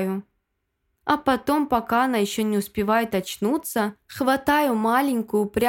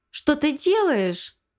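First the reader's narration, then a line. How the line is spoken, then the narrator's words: Shrill squeal. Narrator (Russian): взвизгивает она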